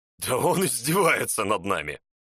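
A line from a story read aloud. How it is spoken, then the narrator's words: Nervous laugh. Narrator (Russian): Нервно рассмеялся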